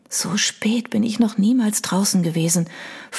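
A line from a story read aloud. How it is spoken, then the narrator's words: Whispered. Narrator (German): flüsterte sie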